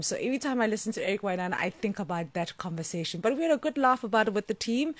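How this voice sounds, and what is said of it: South African accent. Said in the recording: “my accent is very, very South African ... our accent is really, it's very straightforward and very plain”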